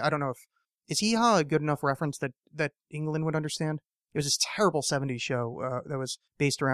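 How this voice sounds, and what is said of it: Usual voice. Nothing is said of it.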